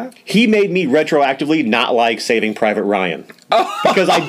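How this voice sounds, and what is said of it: Usual voice. Nothing is said of it.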